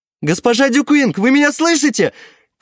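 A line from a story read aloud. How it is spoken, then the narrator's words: Nervous shout. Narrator (Russian): крикнул он, готовый сбежать при малейшей опасности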